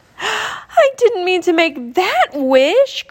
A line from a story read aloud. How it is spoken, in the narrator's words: cried Leah